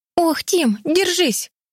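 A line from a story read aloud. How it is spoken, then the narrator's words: Exclaimed. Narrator (Russian): воскликнула Энни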